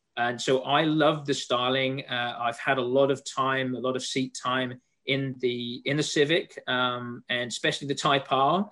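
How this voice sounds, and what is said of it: English accent. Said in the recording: “as you can tell from my accent ... I'm from England, so I'm a European”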